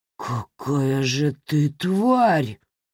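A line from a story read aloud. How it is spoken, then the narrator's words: Forced out, strained. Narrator (Russian): выдавил он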